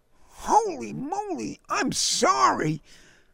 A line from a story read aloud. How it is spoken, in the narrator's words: Larry cried